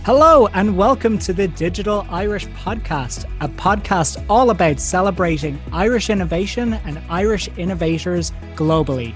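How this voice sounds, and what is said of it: Congested, slightly hoarse voice. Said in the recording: “You may hear it in my voice. I'm recovering from a little bit of a cold at the moment ... I don't sound like this.”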